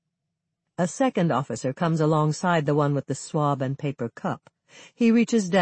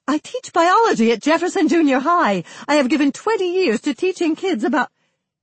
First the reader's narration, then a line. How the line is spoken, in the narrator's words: The woman blurts